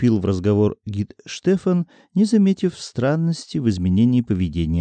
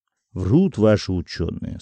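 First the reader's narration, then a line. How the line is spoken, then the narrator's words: Calm interruption. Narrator (Russian): спокойно перебил его фон Арнсберг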